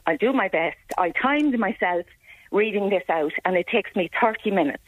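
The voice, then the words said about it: Shaking, nervous voice. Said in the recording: “my voice is shaking”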